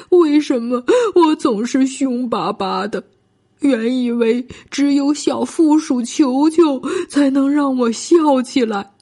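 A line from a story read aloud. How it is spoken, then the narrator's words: Crying. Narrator (Chinese): 他哭着说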